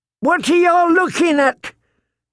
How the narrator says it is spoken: he shouted at his kin

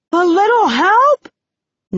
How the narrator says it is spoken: Nine shouts

